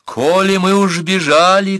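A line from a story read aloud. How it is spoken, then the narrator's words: Girl shouting. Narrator (Russian): крикнула девушка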